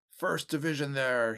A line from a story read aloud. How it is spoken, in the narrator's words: shouted